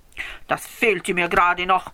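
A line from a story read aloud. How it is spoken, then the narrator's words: Grumbling after someone. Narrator (German): brummte ihm Herr Rax nach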